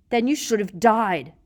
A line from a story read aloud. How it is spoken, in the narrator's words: roared Black